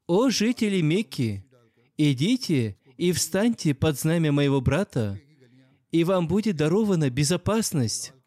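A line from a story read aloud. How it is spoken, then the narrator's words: Loud announcement. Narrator (Russian): Билял громко объявлял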